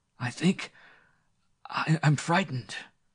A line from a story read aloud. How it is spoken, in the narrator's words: gasped Parnacute